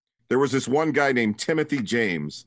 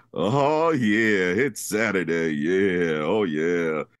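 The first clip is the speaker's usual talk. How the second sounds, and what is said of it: Put-on fake radio DJ voice. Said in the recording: “Fake radio name and a fake voice”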